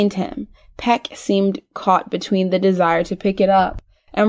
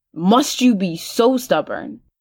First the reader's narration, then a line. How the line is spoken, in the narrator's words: Jaime snarled